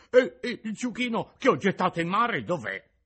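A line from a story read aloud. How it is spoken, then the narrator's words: Crying, stammering. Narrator (Italian): disse piangendo e balbettando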